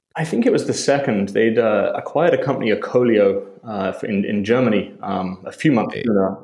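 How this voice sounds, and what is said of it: British accent. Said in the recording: “if you couldn't tell from his accent there, he is British by birth”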